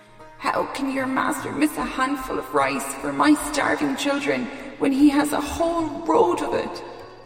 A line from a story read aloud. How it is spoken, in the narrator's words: pleaded